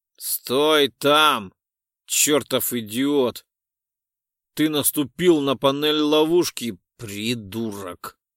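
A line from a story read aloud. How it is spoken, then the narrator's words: Spiteful, through gritted teeth. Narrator (Russian): злобно процедил Айрекс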